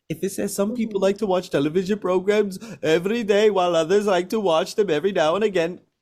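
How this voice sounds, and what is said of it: Put-on Indian accent. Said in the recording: “that's my Indian accent.”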